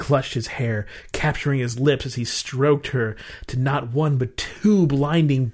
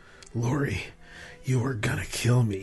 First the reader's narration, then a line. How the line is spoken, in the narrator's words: he muttered between kisses